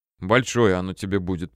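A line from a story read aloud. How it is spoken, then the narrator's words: Grumbling. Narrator (Russian): проворчала Света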